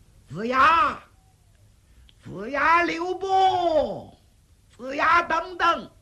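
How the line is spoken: Calling from behind. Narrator (Chinese): 忽听身后有人喊他

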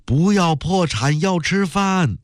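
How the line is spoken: Shouting. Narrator (Chinese): 一个青年女工喊

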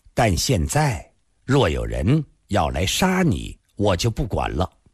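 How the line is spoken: Calm, with a smile. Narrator (Chinese): 他笑了笑，淡淡地接着说

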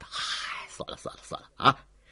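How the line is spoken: Sudden laugh. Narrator (Chinese): 捉小太岁忽然笑道

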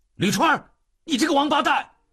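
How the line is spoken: Sudden shout. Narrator (Chinese): 秉坤忽然大喊

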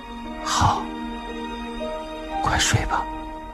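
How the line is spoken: Soft, quiet. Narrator (Chinese): 秉坤小声地说道

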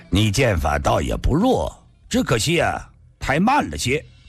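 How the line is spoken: Cool, light laugh. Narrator (Chinese): 白衣人淡淡地笑道

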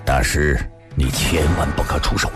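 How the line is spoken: Low, deep voice. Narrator (Chinese): 白小生却拉住了他，沉声地说道

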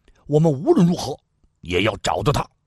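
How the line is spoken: Bearded man, stern voice. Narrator (Chinese): 虬髯大汉厉声说道

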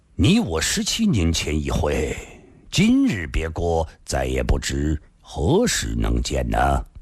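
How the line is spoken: Slow. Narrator (Chinese): 上官金鸿缓缓说道

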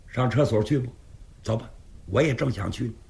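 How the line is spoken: Deliberately raised voice. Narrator (Chinese): 刘世杰故意提高声音说

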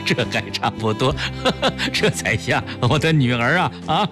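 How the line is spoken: Laughing through tears. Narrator (Chinese): 崔子昂破涕为笑

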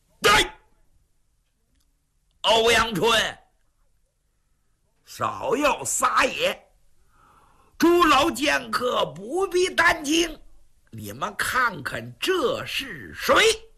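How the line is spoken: Shouted. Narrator (Chinese): 就在这紧急关头，突然听房上有人喊了一嗓子

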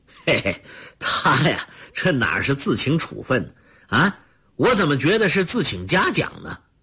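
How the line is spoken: Laughing. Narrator (Chinese): 参谋长田宝华在一边笑着说

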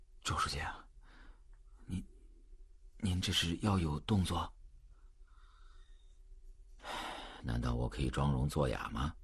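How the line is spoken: Low-voiced question. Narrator (Chinese): 总编辑低声问

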